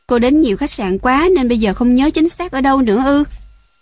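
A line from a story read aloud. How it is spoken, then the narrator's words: Impatient man asking. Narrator (Vietnamese): người đàn ông bèn hỏi với giọng điệu mất kiên nhẫn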